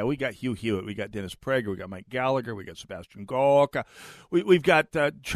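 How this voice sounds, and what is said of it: Usual voice. Nothing is said of it.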